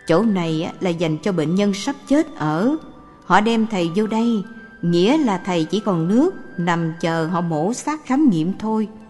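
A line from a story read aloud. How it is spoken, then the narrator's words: Old man sighing. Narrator (Vietnamese): Có một ông già ... ông thở dài, nói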